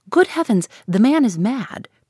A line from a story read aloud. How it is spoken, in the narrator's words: cried the gentleman, whose manner had entirely lost its airiness